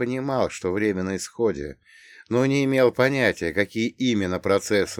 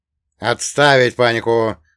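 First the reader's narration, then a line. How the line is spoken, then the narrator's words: Loud command. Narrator (Russian): громко скомандовал заместитель командующий десантом полковник Бернс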